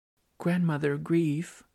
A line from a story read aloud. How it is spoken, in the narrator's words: I pleaded